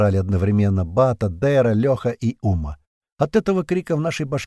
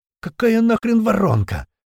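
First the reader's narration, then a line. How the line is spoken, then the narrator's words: Hoarse voice over radio. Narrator (Russian): Кто-то прохрипел в ответ в рацию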